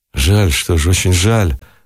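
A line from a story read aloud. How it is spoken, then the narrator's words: Disappointed, sighing. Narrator (Russian): разочарованно сказал Никитин и вздохнул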